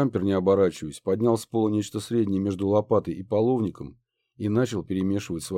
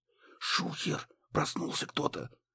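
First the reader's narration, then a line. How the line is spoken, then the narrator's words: Urgent hiss. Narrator (Russian): зашипел муха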